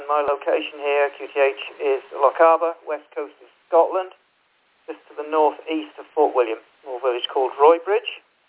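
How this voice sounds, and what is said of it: Norfolk English accent. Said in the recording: “You may be able to detect from my accent, I'm actually originally from Norwich, Norfolk.”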